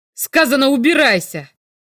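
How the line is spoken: Fierce bark. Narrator (Russian): Свирепо рявкнул Грэхэм

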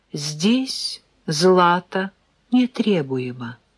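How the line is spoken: Calm retort. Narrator (Russian): Рогозин спокойно парировал

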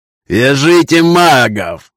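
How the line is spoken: Angry laughing shout. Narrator (Russian): зло смеясь выкрикнул он

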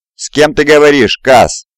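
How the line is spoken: Shout. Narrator (Russian): крикнул Мурза

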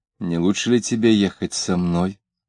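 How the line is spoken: Quiet, pleading. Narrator (Russian): Он сказал тихонько, упрашивая

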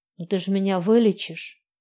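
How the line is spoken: Muttered after deep breath. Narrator (Russian): Я вдохнула, выдохнула и пробормотала

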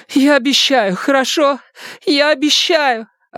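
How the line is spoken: Sobbing. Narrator (Russian): Она разрыдалась

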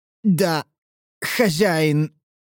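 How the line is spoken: Forced out reluctantly. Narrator (Russian): выдавил он из себя против своей воли

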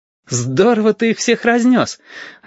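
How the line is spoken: Joyful recollection. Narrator (Russian): радостно вспомнил Стасик

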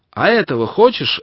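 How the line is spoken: Snapping retort. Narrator (Russian): огрызнулся он

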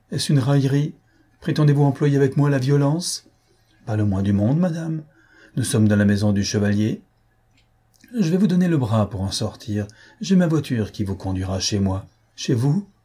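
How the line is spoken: Voice shaken by fear. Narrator (French): s'écria-t-elle d'une voix altérée par la frayeur

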